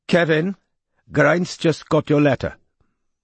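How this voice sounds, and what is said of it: Wobbly Welsh-to-Pakistani put-on accent. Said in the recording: “her accent wobbled somewhere between Cardiff and Lahore”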